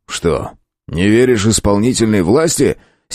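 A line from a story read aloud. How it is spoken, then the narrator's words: Angry question. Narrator (Russian): сердитым тоном спросил Камагин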